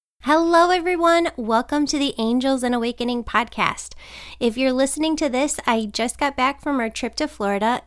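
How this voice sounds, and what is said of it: Sick voice, not normal. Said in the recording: “I caught a cold. I feel like I haven't been this sick for a long, long time ... I wish my voice was normal, but it's not going to be today ... it's actually my voice that is different today”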